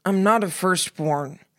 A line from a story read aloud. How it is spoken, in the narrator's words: Simon said, sounding tired, his words slurred